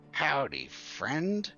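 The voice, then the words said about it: Goblin character voice. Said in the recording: “goblin voice”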